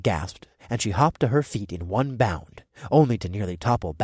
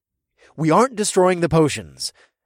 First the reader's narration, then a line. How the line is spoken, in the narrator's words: I said in a commanding tone